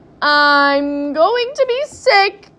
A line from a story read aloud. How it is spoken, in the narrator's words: yelled